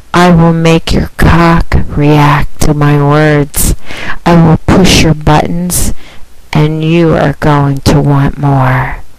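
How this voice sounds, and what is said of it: Super soft, sexy voice. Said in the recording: “I will wow you with my super soft, sexy voice.”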